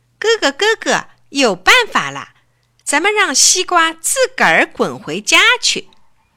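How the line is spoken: Loud excited shout. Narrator (Chinese): 小懒大声喊

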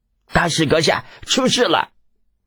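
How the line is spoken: Panicked shouting. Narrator (Chinese): 倭人守卫慌慌张张的叫道

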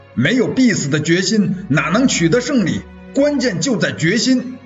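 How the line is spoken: Loud shout. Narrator (Chinese): 主战派周贵生高叫了一声

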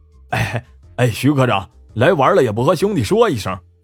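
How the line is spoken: Fawning, smiling. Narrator (Chinese): 满脸堆笑的说

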